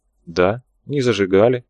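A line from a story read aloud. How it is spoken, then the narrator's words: Calm priest. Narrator (Russian): все так же спокойно подтвердил священник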